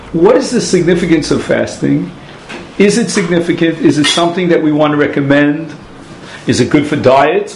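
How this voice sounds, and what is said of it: Brooklyn accent. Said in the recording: “I don't pronounce it the way the Brits pronounce it ... fasting in my old Brooklynese accent.”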